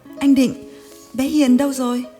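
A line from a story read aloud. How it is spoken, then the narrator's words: Excited cry. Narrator (Vietnamese): nó reo lên và hỏi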